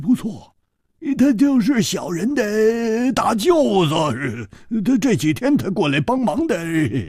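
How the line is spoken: Ingratiating, smiling. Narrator (Chinese): 那个马脸汉子居然笑着点了点头，陪着笑说

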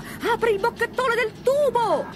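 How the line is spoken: Shout. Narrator (Italian): Lampo gli gridava

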